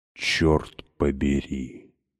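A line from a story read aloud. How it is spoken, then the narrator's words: Stunned whisper. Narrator (Russian): прошептала ошеломленно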